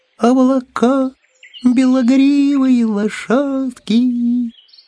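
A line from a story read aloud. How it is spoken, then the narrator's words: Thin high singing. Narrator (Russian): кто-то на этом облаке тоненьким заоблачным голоском запел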